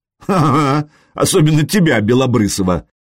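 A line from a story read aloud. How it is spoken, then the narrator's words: Giggling. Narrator (Russian): Машек хихикнул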